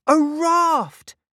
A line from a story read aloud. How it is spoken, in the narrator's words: cried Rusty